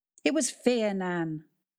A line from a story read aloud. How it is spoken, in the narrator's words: cried Kat